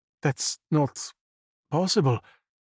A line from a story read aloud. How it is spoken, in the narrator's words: Marco stammered, hushed